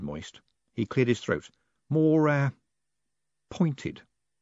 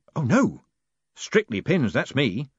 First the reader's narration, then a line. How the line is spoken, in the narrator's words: said Moist hastily